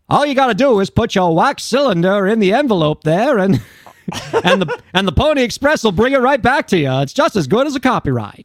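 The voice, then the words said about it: Put-on transatlantic accent. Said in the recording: “I'm using like the transatlantic accent.”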